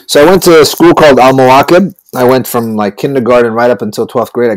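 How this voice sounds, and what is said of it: American-influenced polished accent. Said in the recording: “we all have a similar accent ... I think we were influenced by American TV shows, radio shows, you know, the movies that we were watching ... I just kind of polished it up for you know, things like being on radio, being on TV. And this is the way I sound”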